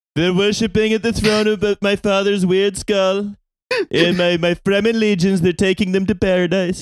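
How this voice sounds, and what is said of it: Impression sounding like Donald Trump. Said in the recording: “in this impression, Baron Trump sounds exactly like Donald Trump ... I was continuing to do Paul.”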